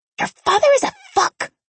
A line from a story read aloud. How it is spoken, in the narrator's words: Maria hissed as she swiped at a few stray tears that had escaped her eyes